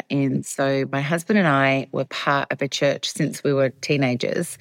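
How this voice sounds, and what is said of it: Australian accent. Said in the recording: “as you can tell by my accent, I'm actually originally from Australia”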